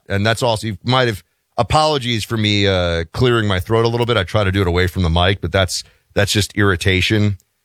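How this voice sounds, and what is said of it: Hoarse, deeper than usual voice. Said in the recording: “your voice seems to be like an octave deeper today ... It is hoarse ... my voice is a little bit shot ... The back of my throat is scratched up”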